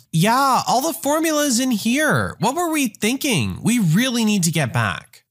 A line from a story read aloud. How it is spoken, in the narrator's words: she yells